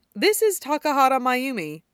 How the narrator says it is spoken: Hana tells Gokudera in a pleasant introductory tone

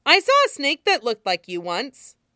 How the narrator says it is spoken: he says cheerfully

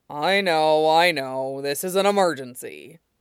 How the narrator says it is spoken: he grumbles

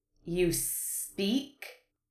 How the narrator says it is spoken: one of them hissed

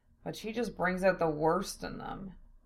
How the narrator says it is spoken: Zell sighed

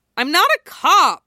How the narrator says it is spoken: Isuna snaps

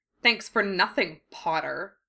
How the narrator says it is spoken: he sneered

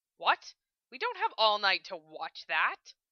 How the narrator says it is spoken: Lena snorted

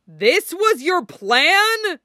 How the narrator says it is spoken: Bucky roared

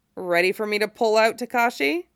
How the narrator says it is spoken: Shiro groaned

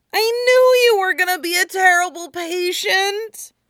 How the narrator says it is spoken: Chopper wails

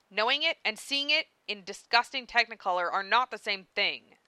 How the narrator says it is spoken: Carcat growled

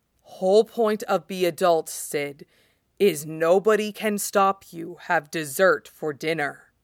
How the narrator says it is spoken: Solemnly, soulfully staring deep into Sid's eyes, he says

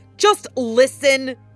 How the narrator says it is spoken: he snapped, angered by her assumption

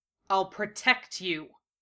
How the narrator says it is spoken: Gatta snarled

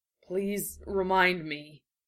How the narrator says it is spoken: he wheezed

